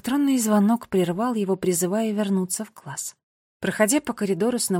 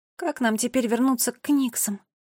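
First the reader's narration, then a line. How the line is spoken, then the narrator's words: Sigh. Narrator (Russian): Финн вздохнул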